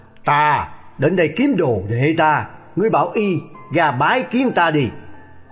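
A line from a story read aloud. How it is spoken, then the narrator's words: Booming hoarse voice, laughing. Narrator (Vietnamese): Một giọng ồm ồm như lệnh vỡ, vừa cười vừa đáp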